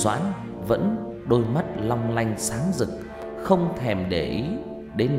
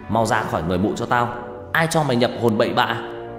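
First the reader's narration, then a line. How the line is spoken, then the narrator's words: Loud barking shout. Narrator (Vietnamese): Thằng Tú quát lớn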